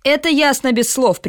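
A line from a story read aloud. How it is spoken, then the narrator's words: Sharp rebuke. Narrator (Russian): прикрикнул на него капитан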